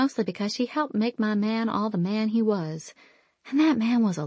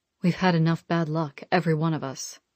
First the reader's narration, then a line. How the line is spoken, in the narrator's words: Marcus growled